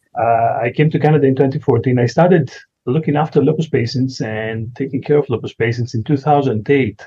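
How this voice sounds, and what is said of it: Greek accent. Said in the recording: “I came from Greece, as you can say, probably from my accent”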